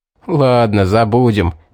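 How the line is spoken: Laughing. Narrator (Russian): рассмеялся Стоун

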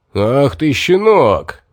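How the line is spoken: Roaring. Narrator (Russian): взревел Микас

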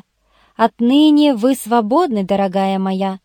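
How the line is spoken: Plain. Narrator (Russian): сказал я

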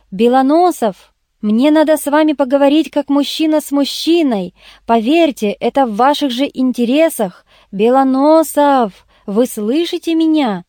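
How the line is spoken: Loud indignant shout. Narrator (Russian): Вне себя от негодования громко крикнул

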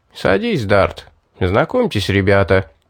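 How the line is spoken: Cheerful. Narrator (Russian): Торвин весело сказал

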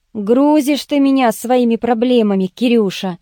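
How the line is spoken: Sighing. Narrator (Russian): вздохнул Сергеич

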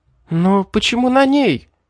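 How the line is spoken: Exclaimed. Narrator (Russian): воскликнула Элизабет

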